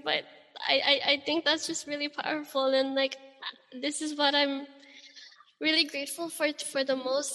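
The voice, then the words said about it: Emotional voice, cracking. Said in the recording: “my voice is cracking”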